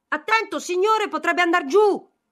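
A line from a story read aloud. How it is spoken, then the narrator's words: Shouted in familiar voice. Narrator (Italian): Felipe gridò con una voce che gli parve di aver già udita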